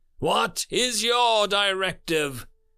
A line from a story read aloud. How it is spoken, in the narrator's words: Seven asked in reply, his voice all but drowned out by the loud sirens